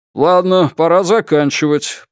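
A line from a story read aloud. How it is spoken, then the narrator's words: Grumbled. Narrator (Russian): проворчал комиссар Сун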